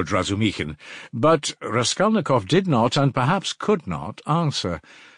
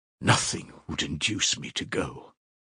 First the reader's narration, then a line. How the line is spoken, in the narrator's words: she whispered in despair to Razumihin